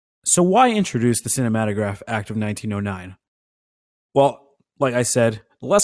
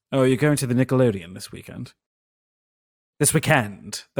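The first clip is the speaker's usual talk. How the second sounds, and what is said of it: Put-on aristocratic British accent. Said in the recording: “That's some Downton Abbey accent. ... That's like my aristocrat British accent.”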